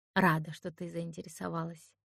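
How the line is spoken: Dry. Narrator (Russian): сухо ответила она

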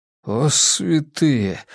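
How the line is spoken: Forced out. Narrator (Russian): выдавил он

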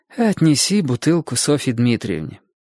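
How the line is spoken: Tired. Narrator (Russian): она устало сказала

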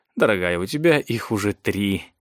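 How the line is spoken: Soft reminder. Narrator (Russian): мягко напомнил Клейтон

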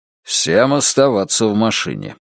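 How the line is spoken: Commanding order. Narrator (Russian): распорядился Оззи

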